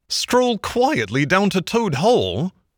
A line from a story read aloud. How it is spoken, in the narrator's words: cried the Rat, greatly excited